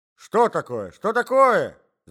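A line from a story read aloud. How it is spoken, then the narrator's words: Old man shouting. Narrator (Russian): закричал старичок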